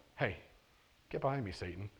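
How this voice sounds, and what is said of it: Gentle, soft-spoken delivery. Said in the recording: “I just said that in a really gentle voice.”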